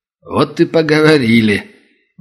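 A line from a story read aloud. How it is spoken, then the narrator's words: Short chuckle. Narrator (Russian): Володя хохотнул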